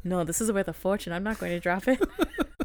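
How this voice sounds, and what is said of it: Weak attempt at Scottish accent. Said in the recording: “Why are you doing the accent? ... I can't do it very well ... a weird accent ... trying to do a Fitz accent ... I don't think you nailed that one ... I'm not Scottish. I don't know how to do Scottish.”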